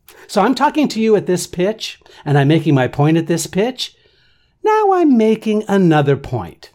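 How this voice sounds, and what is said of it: Usual voice. Nothing is said of it.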